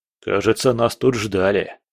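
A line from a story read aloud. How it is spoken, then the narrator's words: Smirking grunt. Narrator (Russian): хмыкнул Боря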